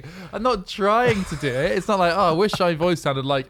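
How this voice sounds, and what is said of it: Phlegmy, congested voice. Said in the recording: “weird voice ... Very phlegmy. Super phlegmy. ... most of my holes were blocked”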